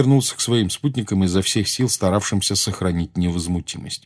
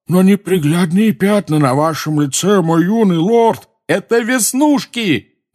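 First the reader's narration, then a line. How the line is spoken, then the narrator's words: Yelling. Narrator (Russian): заорал Рон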